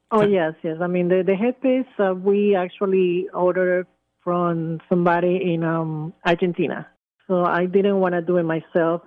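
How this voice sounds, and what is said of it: Speaks with a noticeable accent. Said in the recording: “I'm catching on to your accent”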